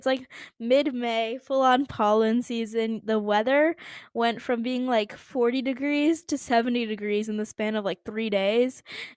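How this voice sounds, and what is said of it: Hoarse voice. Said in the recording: “my voice sounds hoarse ... my voice is sounding a little hoarse”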